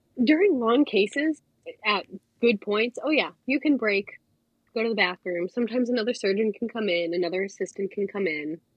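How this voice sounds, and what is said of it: Strained voice, recovering from illness. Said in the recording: “I do have to apologize for my voice because I am still recovering from COVID, kind of.”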